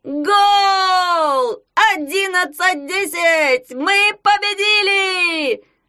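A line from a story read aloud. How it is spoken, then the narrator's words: Jubilant scream. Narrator (Russian): завопил Ягун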